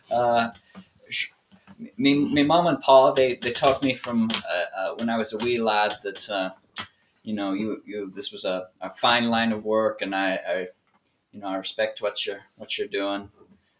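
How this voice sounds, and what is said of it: Put-on accent. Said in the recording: “I've gotten so involved in the accent”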